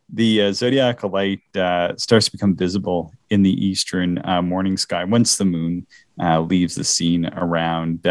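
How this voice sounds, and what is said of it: Canadian Maritime accent. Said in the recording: “I'm tired ... my maritime accent seems to be cutting through”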